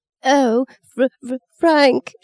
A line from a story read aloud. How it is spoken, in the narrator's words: wailed, her face twisting up and her tears undammed at last